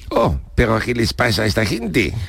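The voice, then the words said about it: Put-on French accent in Spanish. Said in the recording (Spanish): “¿No te has dado cuenta que estás hablando con acento francés? ... mi acento francés”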